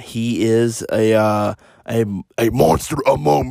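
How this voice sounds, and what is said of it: Poor imitation of another person's voice. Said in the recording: “that was my more more of a terrible Braun Strowman accent.”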